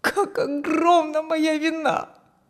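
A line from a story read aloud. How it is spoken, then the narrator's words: Moaning again. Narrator (Russian): Вновь простонал Фрэнк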